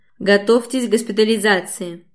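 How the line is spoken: Very sharp command. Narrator (Russian): Уже очень резко командует Женька

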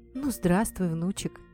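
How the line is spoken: Sad, smiling. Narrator (Russian): сказала Кумихо и грустно улыбнулась

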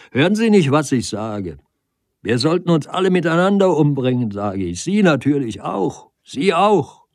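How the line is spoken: Angry loud call. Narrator (German): Der Doktor bekam keine Antwort, er wurde zornig und rief laut

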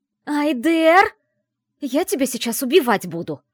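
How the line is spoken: Full-throated yell. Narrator (Russian): орала во все горло

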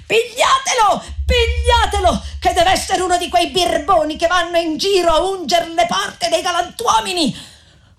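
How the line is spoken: Rude woman shouting. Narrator (Italian): quella medesima sgarbata di prima gridava anche lei

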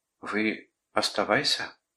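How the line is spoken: Timid request. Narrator (Russian): робко попросила она

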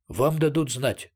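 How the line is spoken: Plain. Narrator (Russian): сказал флагман

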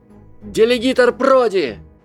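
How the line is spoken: Shout. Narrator (Russian): один из близнецов Уизли закричал

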